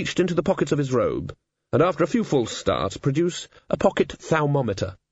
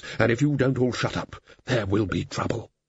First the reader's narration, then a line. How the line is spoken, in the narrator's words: said Ridcully, in a low and level voice